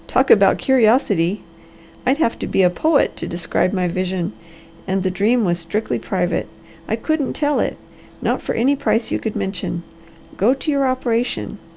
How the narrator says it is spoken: laughed the Harvester

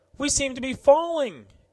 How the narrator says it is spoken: exclaimed Lieutenant Marbury

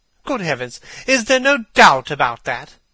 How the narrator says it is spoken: cried Hallward, looking up at him with an expression of horror

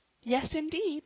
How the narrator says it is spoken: cried Polly again

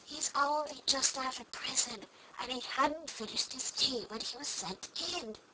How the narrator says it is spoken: Hale whispered to Alice

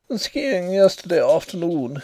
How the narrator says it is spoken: said he with a little laugh

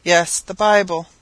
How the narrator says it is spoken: cried he, trying to raise himself in the bed

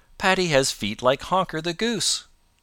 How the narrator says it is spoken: he exclaimed

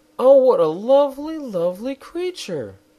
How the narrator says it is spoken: the girl exclaimed

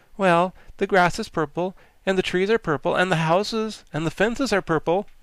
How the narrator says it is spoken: exclaimed Tip

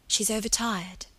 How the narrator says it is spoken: Margaret whispered

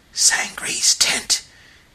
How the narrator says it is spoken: he exclaimed in a loud and startled whisper

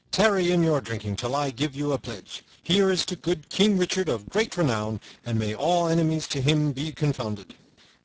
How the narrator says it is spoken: cried he

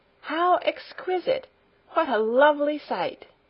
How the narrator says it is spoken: she exclaimed

